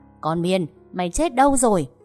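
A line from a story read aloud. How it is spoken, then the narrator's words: Old woman's shout. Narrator (Vietnamese): Tiếng hét của bà Thỏa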